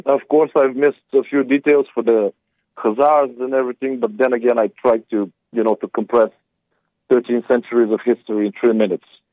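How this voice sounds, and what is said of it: Speaker's own noticeable accent. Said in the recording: “torturing you with my accent”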